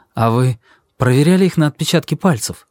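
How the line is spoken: Agitated question. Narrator (Russian): спросил я взволнованно

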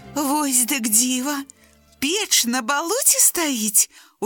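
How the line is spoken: Surprised exclamation. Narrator (Belarusian): усклікнула белая мышка

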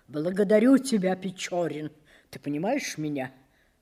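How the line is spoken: Tragic voice. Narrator (Russian): сказал трагическим голосом

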